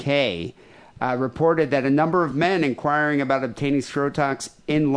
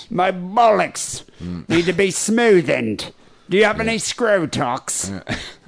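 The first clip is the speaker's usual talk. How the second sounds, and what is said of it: Put-on London accent. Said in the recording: “I would love to hear a Londoner calling a doctor ... That's the only accent I can do.”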